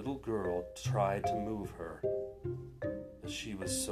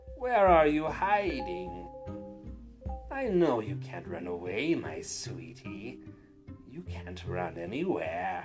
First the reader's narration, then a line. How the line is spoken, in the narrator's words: the old woman snarled with a raspy voice